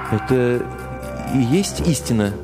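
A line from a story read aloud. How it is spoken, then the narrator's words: Plain. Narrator (Russian): спросил я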